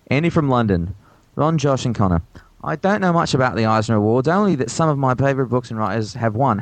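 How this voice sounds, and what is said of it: Put-on English accent. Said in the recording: “He wants me to read this in an English accent ... You got better towards the end.”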